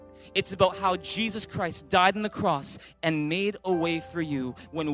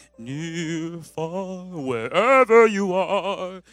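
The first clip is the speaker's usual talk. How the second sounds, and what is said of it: Sings imitating a famous singer. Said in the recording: “my best Celine Dion impression”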